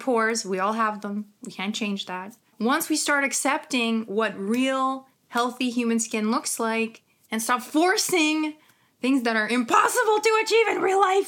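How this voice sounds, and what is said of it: Ukrainian accent. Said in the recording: “oh my God, my Ukrainian accent”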